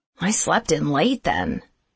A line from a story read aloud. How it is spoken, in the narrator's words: muttered Jack